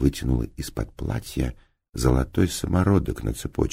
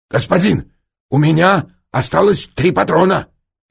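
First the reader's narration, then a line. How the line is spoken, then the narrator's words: Shouted. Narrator (Russian): крикнул Масса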